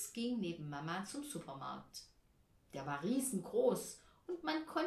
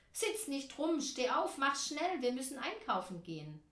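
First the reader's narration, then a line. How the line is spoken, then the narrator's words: Mother calling. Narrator (German): Mama rief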